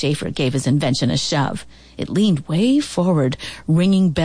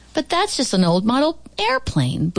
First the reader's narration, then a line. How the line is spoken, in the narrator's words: Booth Schiffer called out